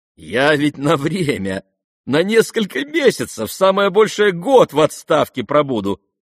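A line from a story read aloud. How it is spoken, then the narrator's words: Laughing. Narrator (Russian): смеялся Радомский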